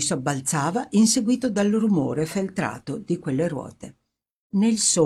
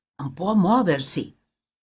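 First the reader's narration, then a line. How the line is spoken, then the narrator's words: Grave whisper in ear. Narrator (Italian): qualcuno con voce grave gli sussurrava negli orecchi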